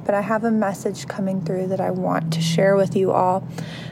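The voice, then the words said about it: Strained, nearly lost voice. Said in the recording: “If you can't tell my voice, I've been like on the verge of losing my voice for the last few days... conserve my little voice”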